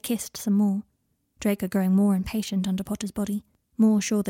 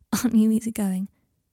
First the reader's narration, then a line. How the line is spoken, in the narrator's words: said Potter, with an affectionate laugh